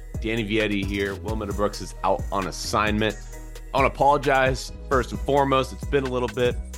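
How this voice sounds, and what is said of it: Voice sounds sick. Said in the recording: “You can probably hear it in my voice still. I've been dealing with some sickness.”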